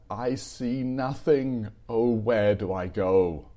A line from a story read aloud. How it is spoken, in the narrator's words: I cried in despair